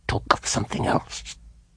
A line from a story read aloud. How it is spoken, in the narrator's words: she said, whispering through her teeth